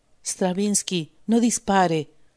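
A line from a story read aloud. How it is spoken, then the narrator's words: Low voice. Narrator (Spanish): dijo en voz baja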